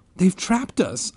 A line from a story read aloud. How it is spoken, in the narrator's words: I cried